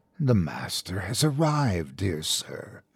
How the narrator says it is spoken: it whispered

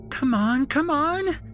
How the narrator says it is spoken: Shelby squealed

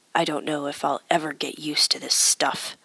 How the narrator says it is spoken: grunted

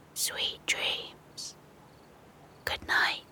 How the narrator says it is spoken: The sheep whispered to them

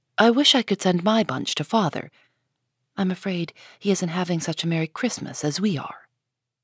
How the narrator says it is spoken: Beth nestled up to her and whispered softly

